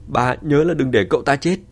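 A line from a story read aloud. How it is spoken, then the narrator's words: Excited shout. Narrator (Vietnamese): Diệp Hoàng phấn khởi thét lớn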